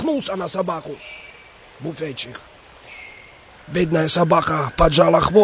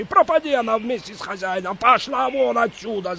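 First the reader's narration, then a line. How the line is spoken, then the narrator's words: Loud yell. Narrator (Russian): заорал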